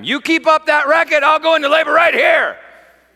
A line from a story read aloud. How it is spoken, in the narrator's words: Susan, she screamed to me from the bathroom